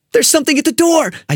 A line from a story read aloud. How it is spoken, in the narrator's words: said frantically